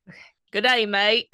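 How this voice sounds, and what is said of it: Put-on Australian accent. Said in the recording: “your best Australian accent... Hey, that was pretty good. That was pretty good.”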